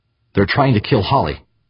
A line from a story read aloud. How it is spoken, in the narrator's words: Eberly blurted